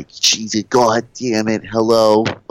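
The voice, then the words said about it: Imitates another person's voice. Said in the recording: “my Sam impression”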